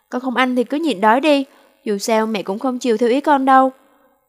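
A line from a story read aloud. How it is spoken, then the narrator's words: Angry raised voice. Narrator (Vietnamese): Kiều Ngọc Phượng bà giận dữ cao giọng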